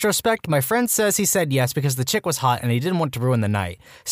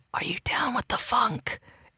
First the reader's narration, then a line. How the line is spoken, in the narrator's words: the girl whisper